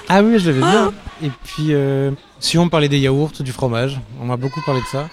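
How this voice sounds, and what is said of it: Swiss Vaudois French accent. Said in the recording (French): “j'avais l'accent vaudois en plus ... Petit accent vaudois”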